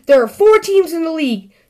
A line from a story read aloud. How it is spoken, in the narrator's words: shouted Sister